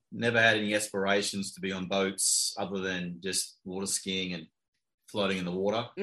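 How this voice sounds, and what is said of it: Australian accent. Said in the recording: “your accent says that ... Palm Beach Gardens by way of Australia, possibly?”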